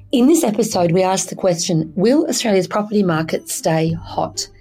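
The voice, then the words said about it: Croaky voice. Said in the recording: “I have a bit of a cold. I'm fine, but I do sound a bit croaky.”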